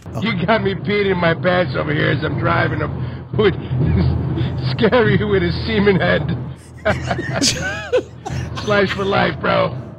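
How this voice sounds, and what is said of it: Man with a strong accent. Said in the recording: “I love that guy's accent so much.”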